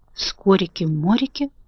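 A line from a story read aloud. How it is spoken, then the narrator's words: Whispered. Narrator (Russian): прошептал Страшила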